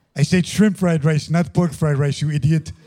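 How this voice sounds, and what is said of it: Imitates another person's voice. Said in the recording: “your best Leor impression”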